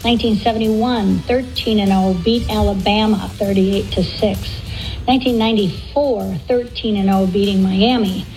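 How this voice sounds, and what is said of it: Strong Fargo accent. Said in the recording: “That is the ultimate Fargo accent.”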